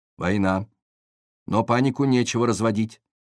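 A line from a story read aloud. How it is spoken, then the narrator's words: Stern voice. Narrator (Russian): говорила она строгим голосом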